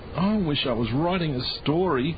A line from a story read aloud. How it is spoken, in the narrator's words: moaned Ron